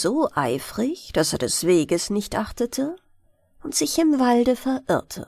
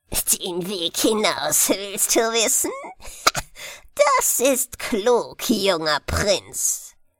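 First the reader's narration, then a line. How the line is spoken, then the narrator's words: Old woman laughing mockingly. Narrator (German): lachte die Alte höhnisch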